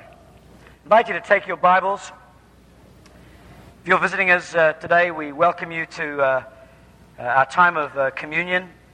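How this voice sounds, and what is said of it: Strained, worn-out hoarse voice. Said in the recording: “get my throat checked ... I've got no voice after worship ... lose your voice”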